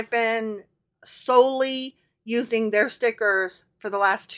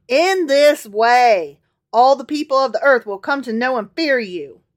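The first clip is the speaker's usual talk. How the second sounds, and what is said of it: Put-on Southern accent. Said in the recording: “continues in his southern accent.”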